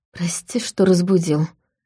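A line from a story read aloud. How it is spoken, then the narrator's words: Weak, strained whisper. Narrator (Russian): шепотом сказал Войтах, говорить громче он не мог физически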